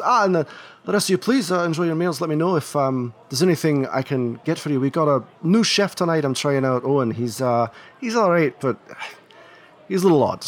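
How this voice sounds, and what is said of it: Very well done put-on accent. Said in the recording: “That accent was just top notch.”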